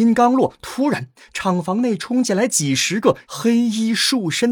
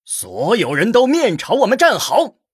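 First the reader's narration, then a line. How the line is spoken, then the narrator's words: Loud. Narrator (Chinese): 莫名边上的一名武人大声说道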